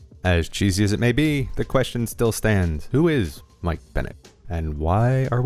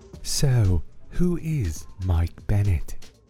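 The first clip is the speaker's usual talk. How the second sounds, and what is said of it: Cheesy put-on English accent. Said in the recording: “my terribly cheesy attempt at an English accent”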